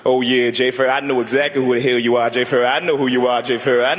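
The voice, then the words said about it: Imitates another person's voice. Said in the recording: “Eddie Murphy goes just like this. He goes”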